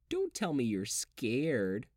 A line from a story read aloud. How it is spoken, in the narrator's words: she said, her tone a taunt